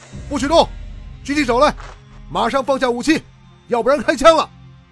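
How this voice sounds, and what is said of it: Loud shouted command. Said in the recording (Chinese): “一声大喊”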